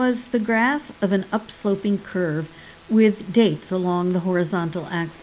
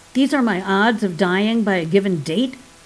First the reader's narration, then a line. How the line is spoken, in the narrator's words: barked Lekesh